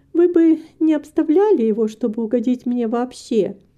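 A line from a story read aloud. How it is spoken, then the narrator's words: Embarrassed, laughing. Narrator (Russian): сказала Рита, мило краснея, хотя и смеясь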